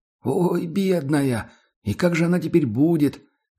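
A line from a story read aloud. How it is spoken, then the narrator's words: Trembling voice, crying. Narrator (Russian): дрогнувшим голосом сказала Пелагея Игнатьевна и заплакала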